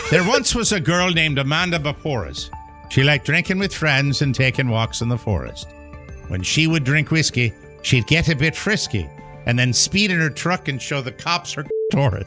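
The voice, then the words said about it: Slight put-on Irish brogue. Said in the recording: “a slight Irish brogue to enhance”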